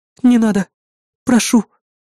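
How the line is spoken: Frightened whisper. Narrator (Russian): испуганно прошептала Эрис

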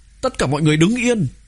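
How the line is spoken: Hurried loud shout. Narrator (Vietnamese): Thương Cửu Hoa vội vàng hét lớn

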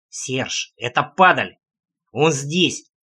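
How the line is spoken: Growl through clenched teeth. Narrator (Russian): сквозь плотно стиснутые зубы рычал Трэмп

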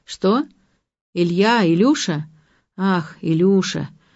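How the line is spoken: Drawling. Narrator (Russian): протянула Александра Андреевна

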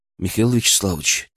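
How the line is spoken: Quiet, private. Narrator (Russian): тихо сказал, чтобы слышал только он

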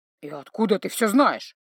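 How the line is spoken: Grumbling mutter. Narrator (Russian): пробурчал Грым

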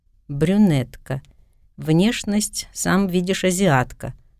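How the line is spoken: Chuckling. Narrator (Russian): Гарри хохотнул

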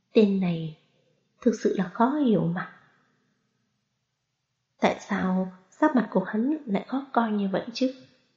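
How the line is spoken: Muttering. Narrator (Vietnamese): Đường Vũ Đồng lẩm bẩm

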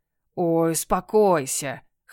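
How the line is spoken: Cat's scoffing snort. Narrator (Russian): хмыкнул кот

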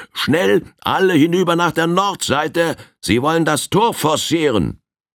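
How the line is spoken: Loud call. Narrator (German): rief Old Firehand mit lauter Stimme

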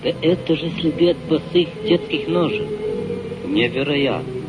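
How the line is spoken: Muttered. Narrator (Russian): Пробормотал он

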